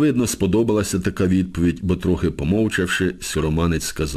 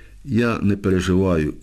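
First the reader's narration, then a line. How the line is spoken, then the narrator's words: Sighing. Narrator (Ukrainian): зітхнув сіроманець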